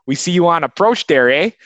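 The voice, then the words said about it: Exaggerated put-on Chicago accent. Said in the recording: “just in like a super like Chicago accent”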